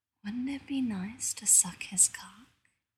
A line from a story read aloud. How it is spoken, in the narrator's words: a thought that feels like a kiss whispers